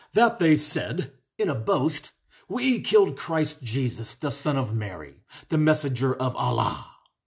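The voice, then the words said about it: Imitates another person's voice. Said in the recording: “going to do my best Mohammed voice”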